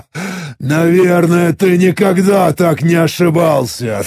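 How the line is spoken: Sinister laughing reply. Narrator (Russian): Зловеще расхохотавшись, ответил я

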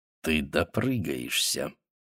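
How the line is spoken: Low, even, menacing. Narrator (Russian): сказал низким, ровным, угрожающим голосом

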